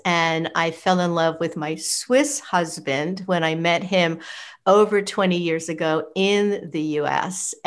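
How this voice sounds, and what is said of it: New York City American accent. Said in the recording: “as you could probably tell from my accent, I am not from here. I am from New York City, from the US.”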